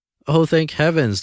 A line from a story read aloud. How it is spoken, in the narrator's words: the woman exclaimed